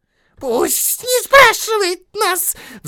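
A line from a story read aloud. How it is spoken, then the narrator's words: Shrill squeal. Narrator (Russian): взвизгнул Голлум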